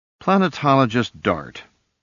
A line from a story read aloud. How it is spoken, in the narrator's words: he sighed